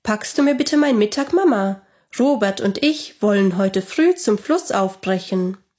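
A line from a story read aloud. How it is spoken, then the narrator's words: Called out. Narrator (German): rief er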